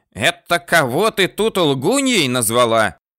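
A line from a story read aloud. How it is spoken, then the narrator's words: Old woman shouting. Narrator (Russian): закричала старуха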